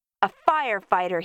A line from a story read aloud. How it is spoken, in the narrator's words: shouted